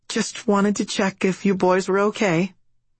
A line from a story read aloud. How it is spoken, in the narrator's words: Mom says timidly